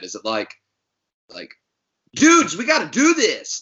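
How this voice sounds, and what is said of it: Put-on California accent. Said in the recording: “California guys, I wonder how y'all talk when y'all get mad ... each different state's accent, because that California one, that was something special”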